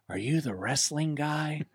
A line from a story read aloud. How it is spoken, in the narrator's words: the flight attendant whispers in my ear